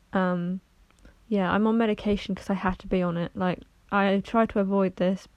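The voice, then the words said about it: Slower, less chirpy, subdued voice. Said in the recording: “You can probably tell in my voice I sound a bit slower, a little bit less chirpy than I usually would.”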